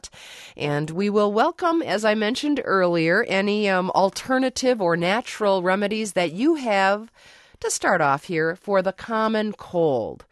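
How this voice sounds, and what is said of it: Congested voice from a cold. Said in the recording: “I'm suffering from a cold. You might hear it in my voice. You might hear it when I hack every once in a while”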